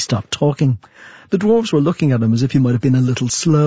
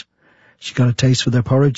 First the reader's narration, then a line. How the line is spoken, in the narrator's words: said Brother Number One, as though confiding a great secret to David